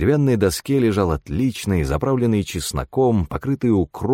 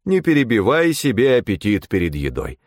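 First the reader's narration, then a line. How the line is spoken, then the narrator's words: Stern metallic imitated voice. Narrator (Russian): отозвался я суровым металлическим голосом отца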